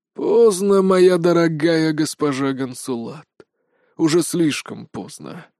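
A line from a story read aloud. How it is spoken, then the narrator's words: Sighing old man. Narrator (Russian): вздохнул старый миротворец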